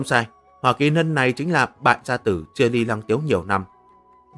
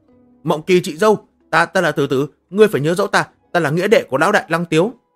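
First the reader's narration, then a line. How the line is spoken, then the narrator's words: Pained scream. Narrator (Vietnamese): Hỏa Kỳ Lân bị thần tháp trấn áp, nó thét lên đau đớn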